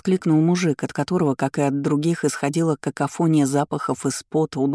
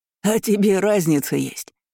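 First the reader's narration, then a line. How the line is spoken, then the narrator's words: Chuckling. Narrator (Russian): хохотнул третий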